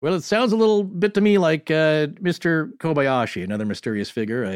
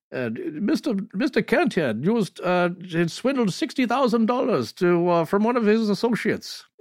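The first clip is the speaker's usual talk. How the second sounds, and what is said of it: Poor imitation of an Indian accent. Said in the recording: “that was terrible. But he's doing an Indian accent”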